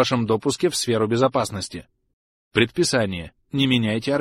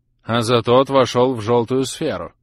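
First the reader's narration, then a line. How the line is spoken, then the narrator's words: Deep chesty voice. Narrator (Russian): проговорила Гвинет Ллойд глубоким грудным голосом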